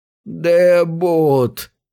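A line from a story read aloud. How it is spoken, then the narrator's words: Hoarse creaky voice. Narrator (Russian): хрипло проскрипела она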